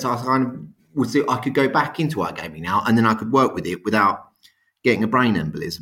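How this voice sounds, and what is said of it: South London accent. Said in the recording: “your delightful South London accent”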